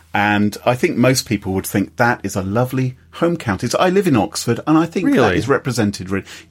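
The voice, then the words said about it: British received pronunciation accent. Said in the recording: “my English accent, is really what we call the Queen's English. This is the A1 top tier received pronunciation, BBC”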